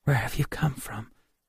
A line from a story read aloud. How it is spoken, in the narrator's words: whispered